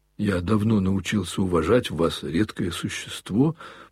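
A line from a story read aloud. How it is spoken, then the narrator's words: Faltering, stumbling mumble. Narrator (Russian): пробормотал опять Коля, сбиваясь и путаясь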